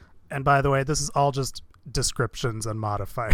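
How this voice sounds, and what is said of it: Usual voice. Nothing is said of it.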